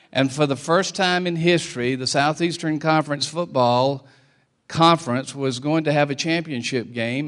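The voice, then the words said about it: Non-local regional American accent. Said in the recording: “you can tell by my accent, I ain't from Columbus”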